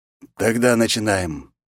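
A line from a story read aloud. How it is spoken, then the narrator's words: Sighed. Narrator (Russian): вздохнул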